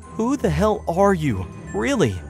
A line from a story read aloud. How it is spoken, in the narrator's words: I asked, my voice trembling with both anger and fear